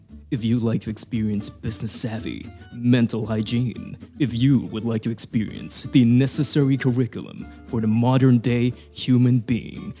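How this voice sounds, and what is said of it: Radio announcer voice. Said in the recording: “Radio voice on.”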